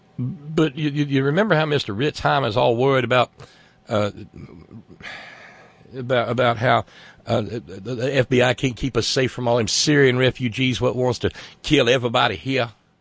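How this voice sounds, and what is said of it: Exaggerated rural Southern accent. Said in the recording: “wrong accent... Too much corn pone, too much corn pone.”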